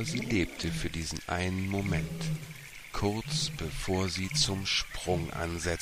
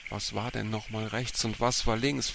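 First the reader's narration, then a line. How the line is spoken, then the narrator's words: Asking oneself. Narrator (German): fragte sich Bea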